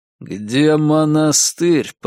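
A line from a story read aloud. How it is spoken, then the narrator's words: Through clenched teeth. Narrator (Russian): процедил я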